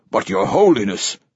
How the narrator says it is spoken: says Lourdesami, his voice urgent

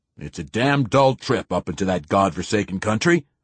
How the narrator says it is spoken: he'd growled

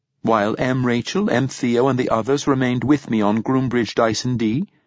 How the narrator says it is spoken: said Abetic

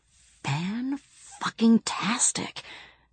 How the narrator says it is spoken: whispered Bibi

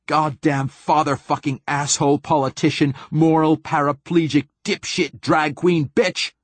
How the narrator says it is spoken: Martin Silenus screams

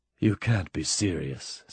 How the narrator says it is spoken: said Mike, in a soft voice that was suddenly quite sober

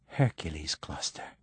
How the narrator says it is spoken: he whispers

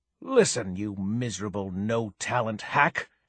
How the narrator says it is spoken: she hissed

